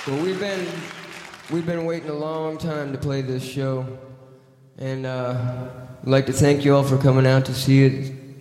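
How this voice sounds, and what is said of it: Texas accent. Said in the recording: “Here's that Texas accent ... He is such a fucking hick.”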